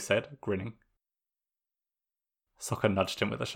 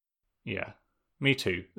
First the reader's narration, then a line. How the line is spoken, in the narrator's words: Zuko said